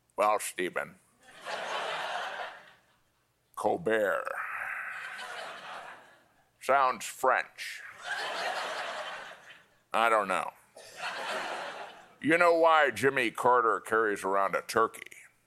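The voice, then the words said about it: Imitates another person's voice. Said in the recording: “doing an impression of my father ... can I hear what your dad sounded like?”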